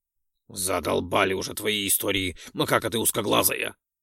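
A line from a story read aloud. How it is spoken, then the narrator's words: Snorting. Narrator (Russian): фыркнул Ролдон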